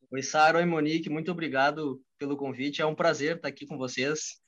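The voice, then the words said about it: Rio Grande do Sul Brazilian accent. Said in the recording (Portuguese): “o sotaque do ... O ... é do Rio Grande do Sul ... do interior do Rio Grande do Sul”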